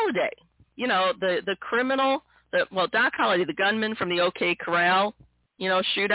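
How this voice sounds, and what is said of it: Usual voice. Nothing is said of it.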